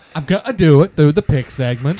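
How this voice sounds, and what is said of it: Exaggerated put-on European accent. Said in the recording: “you're definitely doing a European accent ... this crazy accent that you're doing from Europe”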